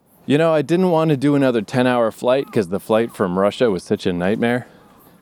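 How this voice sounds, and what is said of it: Out of breath. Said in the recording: “I sound a little out of breath, I'm climbing on a mountain right now”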